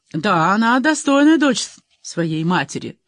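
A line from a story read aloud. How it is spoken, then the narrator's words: Snorting. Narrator (Russian): хмыкнул Кейта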